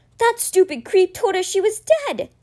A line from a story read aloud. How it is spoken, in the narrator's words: he cried, his face hot with anger